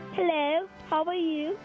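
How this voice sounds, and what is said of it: Put-on British accent. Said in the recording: “Stump us with your British accent ... Let's hear your accent ... I would say that was a very genuine accent, but no.”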